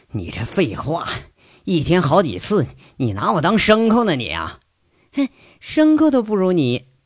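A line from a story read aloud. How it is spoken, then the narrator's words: Panting, angry huffing. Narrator (Chinese): 杨伟在那喘着气，气哼哼说着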